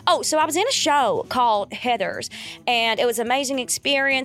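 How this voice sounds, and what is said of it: Put-on Texas accent, Sandy Cheeks. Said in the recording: “Okay, Texas. I'm thinking of Sandy Cheeks from SpongeBob.”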